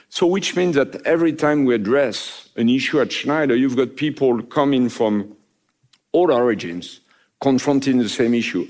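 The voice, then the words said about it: Speaks English with a foreign accent. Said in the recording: “My accent, I think, is a good testimony to that.”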